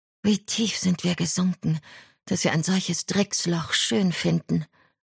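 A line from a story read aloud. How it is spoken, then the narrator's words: Sighing. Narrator (German): Berenice seufzte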